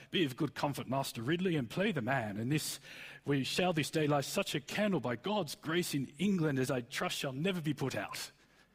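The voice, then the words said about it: Stiff-upper-lip archaic English accent. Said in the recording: “the kind of the stiff upper lip Englishman in the war movies? ... the accent Thor speaks in”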